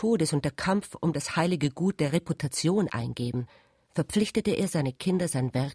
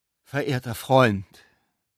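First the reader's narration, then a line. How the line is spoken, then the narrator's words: Solemn measured exclamation. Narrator (German): rief der Besucher mit getragener Stimme aus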